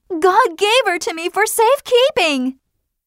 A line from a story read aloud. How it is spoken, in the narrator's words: screamed Hester Prynne